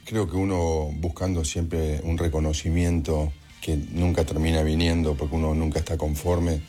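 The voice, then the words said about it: Deep, hoarse announcer-like voice. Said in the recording (Spanish): “tenés una voz de locutor ... Voz ronca, ¿no? ... es buena la voz”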